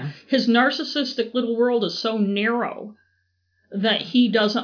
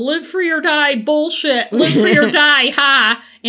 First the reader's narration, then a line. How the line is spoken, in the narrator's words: yelling about all his grievances